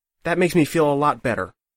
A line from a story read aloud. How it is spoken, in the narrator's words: Azure snapped